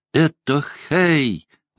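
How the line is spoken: Delighted childlike exclamation. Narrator (Russian): воскликнула она, как ребенок, получивший подарок ко дню рождения

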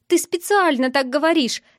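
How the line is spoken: Shouting. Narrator (Russian): закричала

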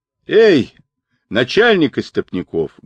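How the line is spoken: Loud shout. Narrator (Russian): громко крикнул Джубадзе

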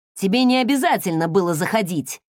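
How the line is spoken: Irritated blurt. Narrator (Russian): раздраженно выпалил Крис

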